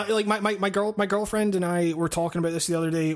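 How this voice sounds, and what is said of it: Usual voice. Nothing is said of it.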